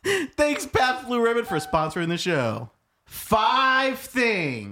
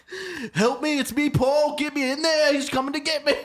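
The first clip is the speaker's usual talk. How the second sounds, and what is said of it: Put-on British accent. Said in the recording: “I hate your British accent so bad.”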